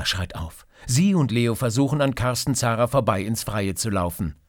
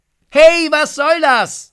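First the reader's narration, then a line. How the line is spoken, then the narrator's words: Shout. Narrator (German): ruft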